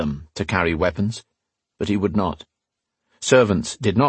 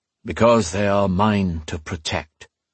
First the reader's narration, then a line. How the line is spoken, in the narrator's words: the Chosen said grimly